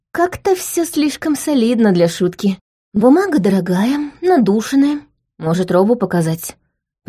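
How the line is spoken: Bewildered suggestion. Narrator (Russian): предложила я растерянно

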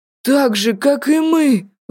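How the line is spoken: Exclaiming. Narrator (Russian): воскликнул Артур

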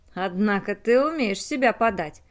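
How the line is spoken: Grumbling. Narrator (Russian): проворчал Вителло

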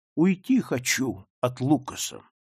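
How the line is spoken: Plain. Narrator (Russian): сказала она

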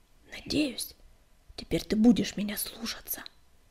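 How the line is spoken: Whisper in ear. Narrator (Russian): шепнул он, наклоняясь к самому уху Белыша

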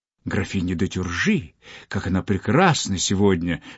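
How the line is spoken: Courtiers whispering. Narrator (Russian): шептали придворные

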